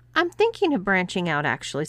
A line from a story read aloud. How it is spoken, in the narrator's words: said JC